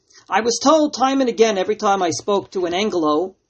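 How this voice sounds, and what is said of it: New York American accent. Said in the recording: “as you hear from my accent from the United States, and even worse off, from New York, that accent can be very annoying”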